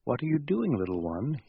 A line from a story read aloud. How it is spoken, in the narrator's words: he says